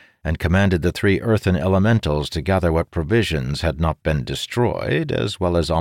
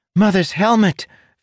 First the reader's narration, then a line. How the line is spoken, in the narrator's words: Fench cried